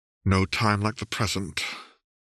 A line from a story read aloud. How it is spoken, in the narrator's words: muttered around the burning rim of the Shine